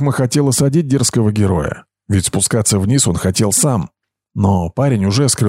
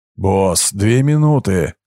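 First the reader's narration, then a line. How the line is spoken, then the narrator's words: Breathless exhale. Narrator (Russian): выдохнул испанец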